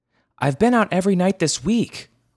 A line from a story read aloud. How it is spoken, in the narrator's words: Mama shouted back